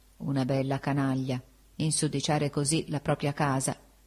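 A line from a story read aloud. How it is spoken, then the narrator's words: Murmured. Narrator (Italian): prima d'addormentarmi, mormorai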